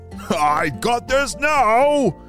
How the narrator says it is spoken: It shouted

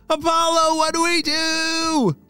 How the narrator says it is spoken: They all were shouting

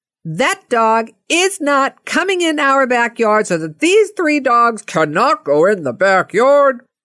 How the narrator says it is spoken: he yells out

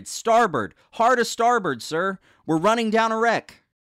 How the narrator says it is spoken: Peter shouted

